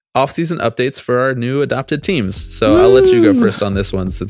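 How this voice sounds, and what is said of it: Hoarse voice. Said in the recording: “my voice is getting hoarse after yelling about the Mets for 5 straight minutes”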